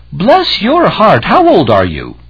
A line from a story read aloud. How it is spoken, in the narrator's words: an elderly woman cried out